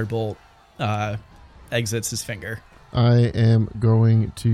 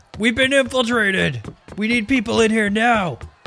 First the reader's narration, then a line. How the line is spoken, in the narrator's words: he yells away